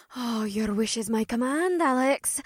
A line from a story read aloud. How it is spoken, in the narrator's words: May breathed